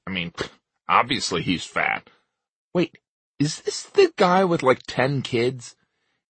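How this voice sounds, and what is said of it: Annoying put-on listener voice. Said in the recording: “He's talking for me, the listener. That's why he's doing an annoying voice.”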